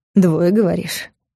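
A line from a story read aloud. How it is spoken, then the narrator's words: Snort. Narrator (Russian): Хмыкнул Влад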